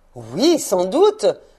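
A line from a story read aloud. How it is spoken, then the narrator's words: Old man exclaiming. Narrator (French): s'écria le vieux monsieur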